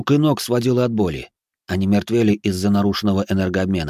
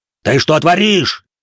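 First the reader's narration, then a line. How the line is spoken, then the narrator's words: Panicked yell. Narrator (Russian): заорал впавший в панику Юэда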